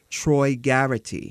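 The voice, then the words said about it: Put-on New York accent. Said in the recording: “I have to say that with a New York accent. ... When I do double R's, I do double R's ... It's your affectation.”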